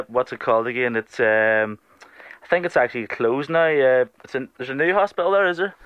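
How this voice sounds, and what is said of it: Irish accent. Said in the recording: “You've got a beautiful Irish accent”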